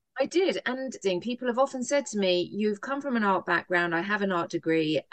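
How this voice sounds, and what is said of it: British accent. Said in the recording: “I am a Brit. So, you know, everybody who's listening can enjoy the accents.”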